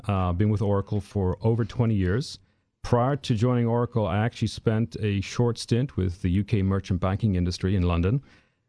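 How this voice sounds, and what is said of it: Irish accent. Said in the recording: “people maybe are listening to your accent and they're going, well, where's that guy from? ... I'm originally from Ireland.”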